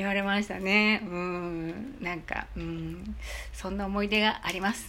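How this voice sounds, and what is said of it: Usual voice. Nothing is said of it.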